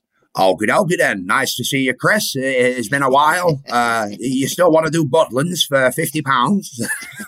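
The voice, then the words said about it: Imitation in a Scouse accent. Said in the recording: “do a Brian Dixon imitation ... I'm nearly there, but it's that Scouse accent.”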